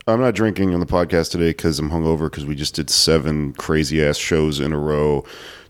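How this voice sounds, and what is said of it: Hoarse, cracking, worn-down voice. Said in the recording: “my voice is all hoarse. It's from performing, but also just smoking and stuff, and just like, and yelling ... your voice is always hoarse, but it like, it cracks now that you're hungover, like super like worn down”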